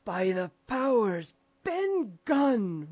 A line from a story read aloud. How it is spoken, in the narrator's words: roared Silver